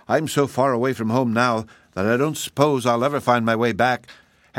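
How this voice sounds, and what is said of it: Very cheerful voice. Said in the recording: “in her most cheerful voice.”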